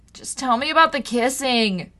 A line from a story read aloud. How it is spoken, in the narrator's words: she moaned